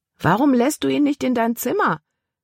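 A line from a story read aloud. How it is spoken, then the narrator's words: Called after someone. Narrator (German): rief Caleb ihr nach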